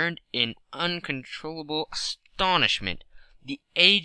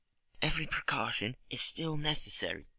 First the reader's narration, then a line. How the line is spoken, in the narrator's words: he whispered